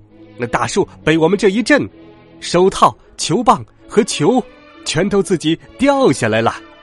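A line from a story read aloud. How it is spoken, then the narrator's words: Duck, sudden shout. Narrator (Chinese): 鸭子达克忽然大喊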